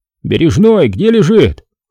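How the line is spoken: Shouted. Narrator (Russian): крикнул он

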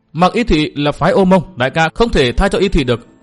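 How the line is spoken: Loud interrupting youth. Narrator (Vietnamese): thiếu niên áo trắng sử dụng cái sáo ngọc đã ngắt lời và lớn tiếng

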